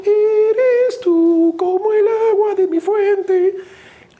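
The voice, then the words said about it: Sings in a child's voice. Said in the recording (Spanish): “con la voz de niño ... Como Luis Miguel, cuando estaba chiquito.”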